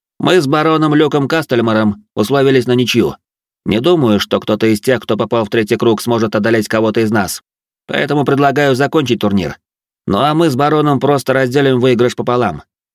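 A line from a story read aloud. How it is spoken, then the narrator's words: Loud. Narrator (Russian): После чего он громко произнес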